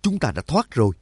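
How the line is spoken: Joyful exclamation. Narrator (Vietnamese): Nhạc Dương mừng rỡ thốt lên

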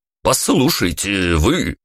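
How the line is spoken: Barked shout. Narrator (Russian): гаркнул охранник

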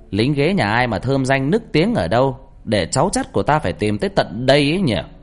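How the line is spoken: Loud ringing woman's voice. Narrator (Vietnamese): Mẹ tôi nói lớn bằng giọng sang sảng

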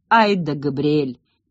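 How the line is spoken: Muttered. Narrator (Russian): пробормотал Диего

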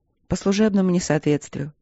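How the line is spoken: Calm. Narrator (Russian): спокойно сказала капитан

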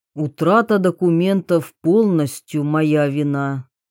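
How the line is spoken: Muffled, hollow voice. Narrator (Russian): глухо проговорил Идзуми

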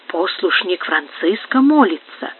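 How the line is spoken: Quiet remark. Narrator (Russian): тихо заметил начальник карлистов

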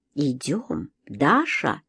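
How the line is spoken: Quiet question. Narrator (Russian): тихо спросил меня Антонио

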